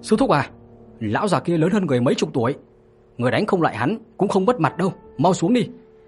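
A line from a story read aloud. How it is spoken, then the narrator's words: Hurried loud shout. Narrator (Vietnamese): Trường Sinh vội vàng hét lớn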